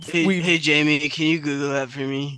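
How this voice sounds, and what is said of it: Imitates another person's voice. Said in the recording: “I can't do a Joe Rogan impression.”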